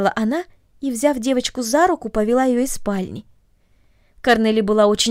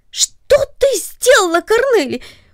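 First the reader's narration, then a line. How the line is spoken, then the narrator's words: Sudden startled cry. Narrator (Russian): вскрикнул он от внезапного удивления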